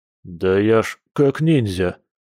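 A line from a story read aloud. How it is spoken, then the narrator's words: Grumbling. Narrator (Russian): проворчал Борис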